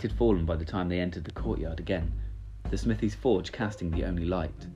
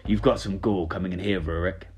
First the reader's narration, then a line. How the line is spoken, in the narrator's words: growled